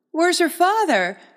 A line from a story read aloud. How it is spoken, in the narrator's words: asked brightly